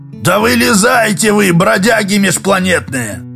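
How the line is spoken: Hoarse bark. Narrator (Russian): сипло рявкнул Краюхин

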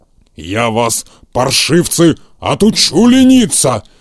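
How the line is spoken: Fierce growl. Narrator (Russian): свирепо зарычал он

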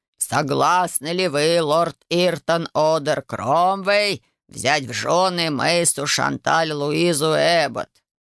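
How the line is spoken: Low creaky voice. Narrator (Russian): низким скрипучим голосом произнес

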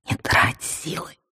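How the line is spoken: Whispered. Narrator (Russian): прошептал он

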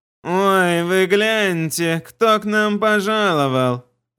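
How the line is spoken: Unpleasant nasal male voice. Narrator (Russian): Раздался противный, немного гнусавый мужской голос

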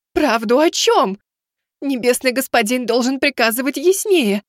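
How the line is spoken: Pitiful martyred tone. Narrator (Russian): ответила Азимандия таким тоном, что сами небеса зарыдали бы от жалости к мученице

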